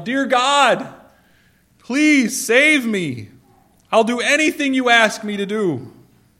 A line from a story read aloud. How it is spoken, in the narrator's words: Now frightened, looked to the sky and he yelled